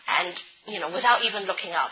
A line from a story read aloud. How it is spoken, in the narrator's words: he said coldly